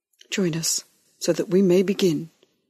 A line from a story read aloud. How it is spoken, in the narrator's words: said Father